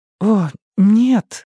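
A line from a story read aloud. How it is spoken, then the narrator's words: Moan. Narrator (Russian): простонала Саманта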